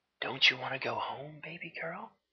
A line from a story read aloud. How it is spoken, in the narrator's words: he whispered softly in her ear with a syrupy rich tone of daddy on his breath